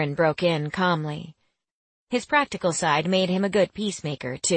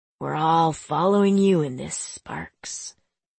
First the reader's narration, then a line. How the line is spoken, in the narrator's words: he muttered